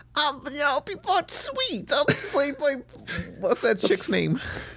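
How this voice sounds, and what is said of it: Cartoon character voice. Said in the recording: “doing that voice”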